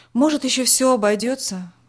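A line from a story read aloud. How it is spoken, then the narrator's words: Sighing. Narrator (Russian): вздохнул отец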